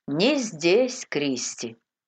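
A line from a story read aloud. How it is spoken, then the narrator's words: Plain. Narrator (Russian): ответил он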